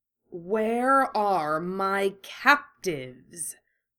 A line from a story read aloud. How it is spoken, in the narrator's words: he snarled, Voldemort's voice in his mouth